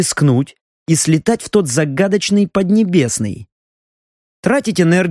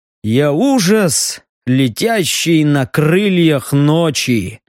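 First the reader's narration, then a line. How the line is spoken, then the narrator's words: Joked grimly. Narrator (Russian): мрачно пошутил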